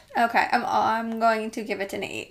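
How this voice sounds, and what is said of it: Brief slight Irish accent. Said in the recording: “You just had an accent for a little bit ... I think you just had a little Irish accent for a second there.”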